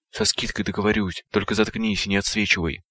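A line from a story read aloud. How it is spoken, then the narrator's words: Near pleading. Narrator (Russian): почти взмолился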